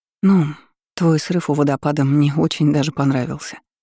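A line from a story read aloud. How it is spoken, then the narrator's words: Breathless, flustered. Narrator (Russian): выдохнула, чувствуя, как к лицу приливает жар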